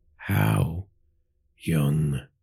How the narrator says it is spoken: Virat growled

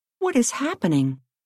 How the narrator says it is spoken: cried Hank

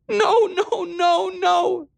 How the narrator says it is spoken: she cried

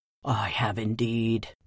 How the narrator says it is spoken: said the bear with a low, deep growl

